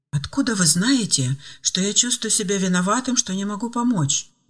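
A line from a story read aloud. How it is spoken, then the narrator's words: Man exclaiming. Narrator (Russian): воскликнул мужчина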